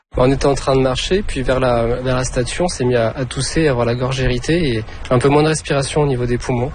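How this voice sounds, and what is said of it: French-from-France accent. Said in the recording (French): “j'entends l'accent français ... ils viennent de Lyon, en France”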